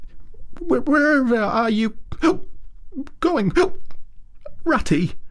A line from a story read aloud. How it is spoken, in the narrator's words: cried the tearful Mole, in alarm